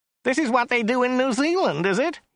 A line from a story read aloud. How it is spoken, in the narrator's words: whined